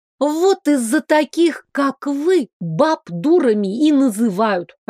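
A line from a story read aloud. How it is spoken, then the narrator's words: Snapping retort. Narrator (Russian): огрызнулась я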